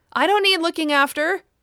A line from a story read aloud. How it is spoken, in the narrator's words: said Kitty loudly